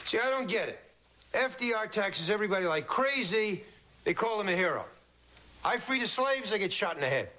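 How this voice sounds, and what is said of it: Brooklyn accent. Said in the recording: “Except for the Brooklyn accent.”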